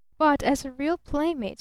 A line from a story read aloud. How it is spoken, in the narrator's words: she persisted evenly